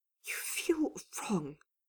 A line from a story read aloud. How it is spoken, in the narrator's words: Dorian admitted in a whisper